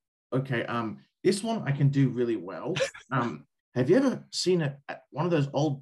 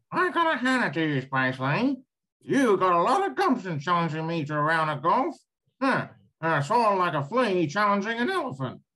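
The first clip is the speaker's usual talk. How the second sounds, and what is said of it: Imitates a cartoon character's voice. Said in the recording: “I also have a knack for doing voices ... Cogswell, I can do very well.”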